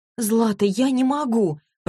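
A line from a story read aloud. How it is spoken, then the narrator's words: Groaning. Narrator (Russian): простонала Василиса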